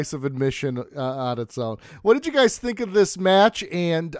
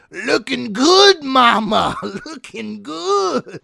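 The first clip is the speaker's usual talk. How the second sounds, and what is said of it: Put-on Latino accent. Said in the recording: “Vince McMahon's Latino accent”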